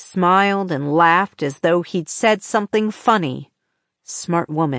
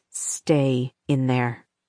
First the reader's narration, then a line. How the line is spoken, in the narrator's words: Austin whispered